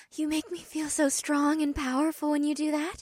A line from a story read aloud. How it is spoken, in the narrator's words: Una informed me in a voice barely above a whisper